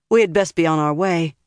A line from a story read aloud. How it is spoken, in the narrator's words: Nynaeve said